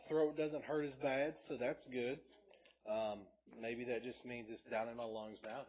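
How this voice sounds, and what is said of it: Slightly hoarse voice. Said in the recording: “Still a little hoarse.”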